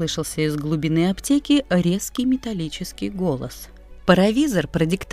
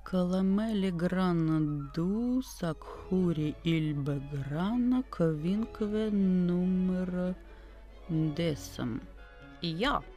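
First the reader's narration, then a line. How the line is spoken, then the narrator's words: Muttered. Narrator (Russian): пробормотал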